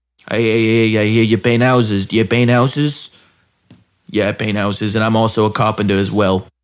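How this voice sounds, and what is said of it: Rough put-on accent attempt. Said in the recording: “That was my attempt at an accent. Was that bad? ... It was kind of rough”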